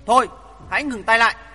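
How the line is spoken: Woman shouting. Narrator (Vietnamese): Nàng liền thét lớn

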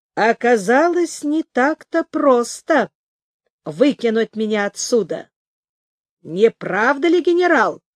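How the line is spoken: Plain. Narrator (Russian): сказал он

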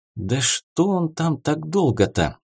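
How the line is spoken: Anxious hiss. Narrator (Russian): с беспокойством прошипела Карина

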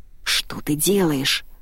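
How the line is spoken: Growl. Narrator (Russian): прорычал Уайт

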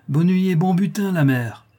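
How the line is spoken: Hollow hoarse exclamation. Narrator (French): s'écria-t-il d'une voix creuse et enrouée

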